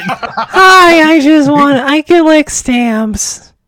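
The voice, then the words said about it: Cartoon Toad voice, sounds congested. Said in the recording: “his toad impression ... This just sounds like you with a cold. You're just really sick.”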